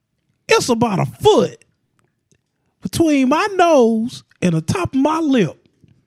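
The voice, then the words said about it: Imitates another person's voice. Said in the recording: “I do a great Steve Harvey impression. ... Spot on. ... I thought Steve Harvey was here.”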